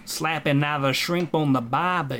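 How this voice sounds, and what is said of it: Fake Australian accent. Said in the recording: “The fake Aussie accents”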